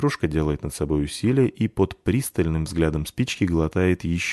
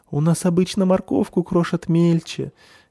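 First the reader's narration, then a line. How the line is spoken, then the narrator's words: Frightened squeak, small animal. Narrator (Russian): испуганно пищит зверушка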